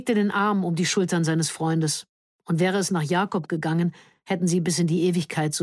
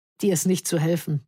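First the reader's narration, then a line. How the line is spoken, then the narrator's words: Laughing. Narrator (German): lachte Georg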